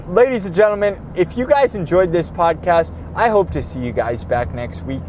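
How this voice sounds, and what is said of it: Hoarse, strained voice. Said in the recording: “I'm losing my fucking voice. I'm losing my voice.”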